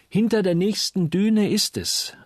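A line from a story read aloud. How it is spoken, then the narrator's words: Calling out. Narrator (German): rief Uli endlich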